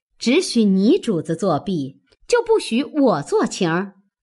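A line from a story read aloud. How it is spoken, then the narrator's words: Laughing. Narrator (Chinese): 尤氏笑道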